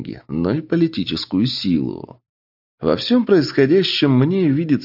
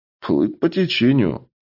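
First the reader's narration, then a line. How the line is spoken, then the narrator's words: With a snort. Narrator (Russian): хмыкнул я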